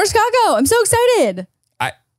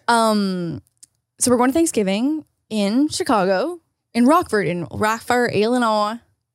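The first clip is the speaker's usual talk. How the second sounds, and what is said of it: Unconvincing attempted Northern Illinois accent. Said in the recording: “That's not really how a Northern accent works ... I don't know what accent that was, but it's certainly not Illinois and certainly not Northern Illinois”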